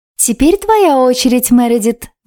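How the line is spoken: Sugary voice. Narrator (Russian): внезапно проговорила елейным голоском хозяйка комнаты

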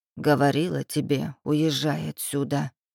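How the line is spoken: Grumbling. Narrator (Russian): пробурчала Ильинична

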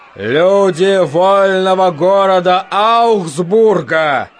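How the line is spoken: Shout, trying not to tremble. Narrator (Russian): крикнул Петр, надеясь, что голос его не дрожит

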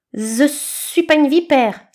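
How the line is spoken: String hissing. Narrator (French): siffla la ficelle

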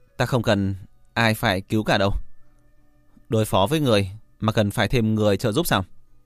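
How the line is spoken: Laughing loudly. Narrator (Vietnamese): Trác Hàm nghe xong, hắn ta há miệng cười to

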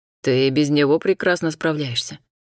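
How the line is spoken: Smirking grunt. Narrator (Russian): хмыкнул Альтаир

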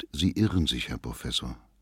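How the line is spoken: Gentle reply. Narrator (German): erwiderte Lohmann sanft

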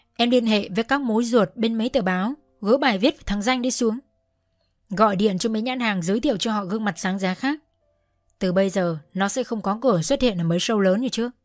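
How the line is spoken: Cold command. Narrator (Vietnamese): ông bầu Minh Huỳnh lạnh lùng phán

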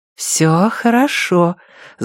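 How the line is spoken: Overly sweet reassurance. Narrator (Russian): заверила ее Андреа до невозможности сладким голосом

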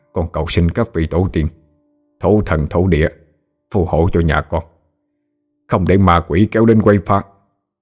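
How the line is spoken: Muttered prayer, old man. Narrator (Vietnamese): Ông nội miệng còn lẩm bẩm

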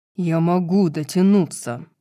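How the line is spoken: Growl. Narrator (Russian): прорычал Рун

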